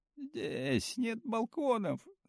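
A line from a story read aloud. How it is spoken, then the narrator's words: Sobbing again. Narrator (Russian): Соня снова всхлипнула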